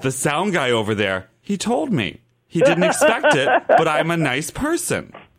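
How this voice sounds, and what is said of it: Imitates another person's voice. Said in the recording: “That's a good Coco impression.”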